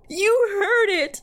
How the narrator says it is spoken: cried as my body racked with sobs

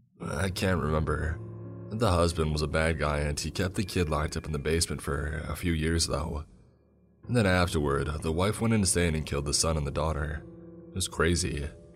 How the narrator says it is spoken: he said

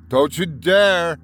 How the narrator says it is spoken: I shouted at them

